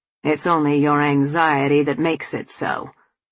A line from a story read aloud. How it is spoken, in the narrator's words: Tom said